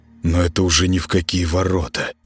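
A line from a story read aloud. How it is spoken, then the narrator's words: Mumbled aloud. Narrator (Russian): промямлил он вслух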